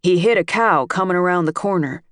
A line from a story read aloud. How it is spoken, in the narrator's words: a man said